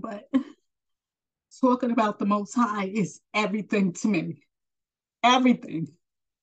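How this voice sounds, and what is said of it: Emotional voice. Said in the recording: “getting emotional ... my raw emotion to come out”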